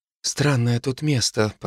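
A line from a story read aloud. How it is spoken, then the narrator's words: Mutter. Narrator (Russian): пробормотала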